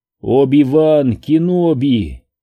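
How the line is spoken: Feeble groan. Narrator (Russian): бессильно простонал Брук

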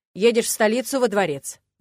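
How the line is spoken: Barking rector. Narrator (Russian): гаркнул ректор

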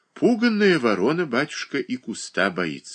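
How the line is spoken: Sighing tearfully. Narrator (Russian): вздохнула Марья Дмитриевна, и на ее глазах навернулись слезы

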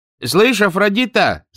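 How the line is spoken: Shouting. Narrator (Russian): закричал он жене

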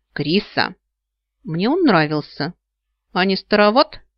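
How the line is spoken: Snide question. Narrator (Russian): ехидно осведомился мой крылатый красноглазый

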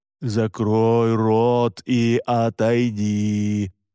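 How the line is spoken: Sing-song chant. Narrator (Russian): нараспев произнес Александр

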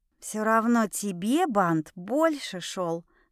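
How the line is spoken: Whispered. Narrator (Russian): шепнула я Люси

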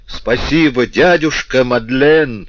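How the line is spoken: Shouted. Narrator (Russian): крикнул

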